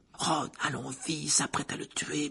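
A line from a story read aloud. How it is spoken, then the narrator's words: Whispered. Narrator (French): murmura Hermione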